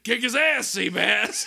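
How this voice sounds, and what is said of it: Bad Stone Cold Steve Austin impression. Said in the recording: “Stone Cold gets to say it... My really bad Steve Austin impersonation.”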